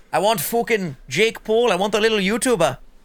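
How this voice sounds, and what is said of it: Put-on British accent. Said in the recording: “it's a KSI accent. It's went British over here.”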